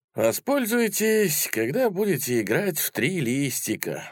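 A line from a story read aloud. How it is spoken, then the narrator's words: Sad old man. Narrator (Russian): грустно сказал старик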